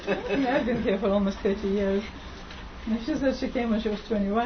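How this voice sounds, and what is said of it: Foreign accent. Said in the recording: “hence the accent. You don't lose your accent after 9 years.”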